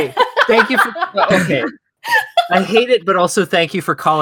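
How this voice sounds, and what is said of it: Usual voice. Nothing is said of it.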